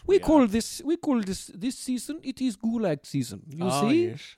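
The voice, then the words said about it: Put-on Russian-style accent. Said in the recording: “I'm not sure where my accent is from, but we will roll with it. ... Look, Russia's a big place. ... I'm actually from Georgia.”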